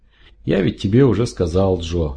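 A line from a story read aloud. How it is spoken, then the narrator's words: Gentle interruption. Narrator (Russian): ласково вмешался врач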